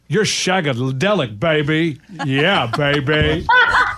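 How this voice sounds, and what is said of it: Terrible Austin Powers impression. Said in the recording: “Shagadelic ... that terrible impression”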